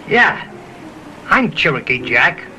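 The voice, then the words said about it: Character voice with New York accent. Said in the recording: “Cherokee Jack with a New York accent”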